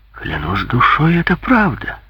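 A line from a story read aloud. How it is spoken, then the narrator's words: Exclaiming. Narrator (Russian): воскликнул Грингуар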